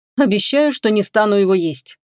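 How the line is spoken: Grumbling. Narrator (Russian): проворчал Эйден

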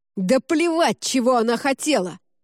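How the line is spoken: Barking. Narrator (Russian): рявкнул Норрингтон

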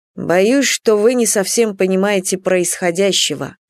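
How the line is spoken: Plain. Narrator (Russian): сказал Андрей Константинович

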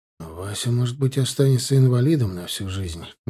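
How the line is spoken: Sad. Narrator (Russian): грустно добавил Синицын

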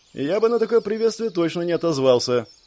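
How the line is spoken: Snorting, wry. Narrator (Russian): хмыкнул Шон

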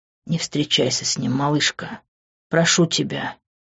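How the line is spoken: Intimate close whisper. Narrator (Russian): прошептал он, обжигая дыханием мою кожу

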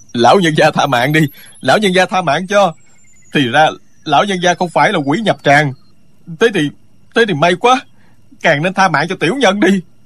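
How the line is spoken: Loud terrified pleading. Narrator (Vietnamese): Người kia toàn thân tê dại, lớn tiếng van xin

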